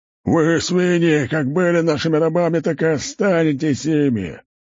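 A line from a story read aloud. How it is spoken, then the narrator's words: Laughing taunt. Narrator (Russian): Аль-Аико смеялся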